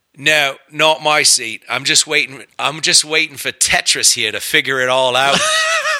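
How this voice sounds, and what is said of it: Thick put-on Australian accent. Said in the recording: “in the thickest Aussie accent ... with the accent and the whole thing”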